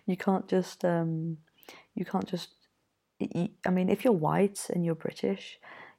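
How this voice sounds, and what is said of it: British English accent. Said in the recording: “if you're British ... as soon as they hear my accent”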